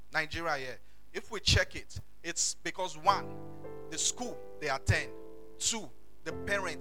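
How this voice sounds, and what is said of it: Nigerian English accent. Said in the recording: “English, Nigeria ... when I speak, you still you'll find my accent, you know, in my words and the things that I pronounce ... that Yoruba English”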